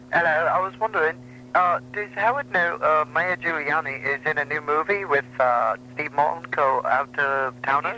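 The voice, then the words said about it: Put-on English accent. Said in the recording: “Is there a reason you're putting on the English accent?”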